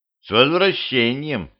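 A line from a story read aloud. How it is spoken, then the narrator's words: Plain. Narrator (Russian): сказал он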